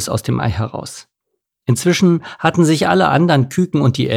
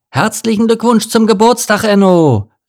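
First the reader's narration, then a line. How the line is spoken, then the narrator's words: Whole family in chorus. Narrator (German): rief die ganze Familie im Chor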